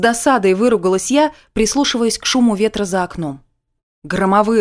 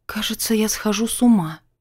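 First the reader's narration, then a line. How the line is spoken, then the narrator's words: Whisper. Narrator (Russian): прошептала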